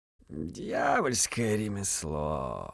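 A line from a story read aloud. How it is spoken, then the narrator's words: Snake-like hiss. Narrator (Russian): Змеем прошипел одноглазый монах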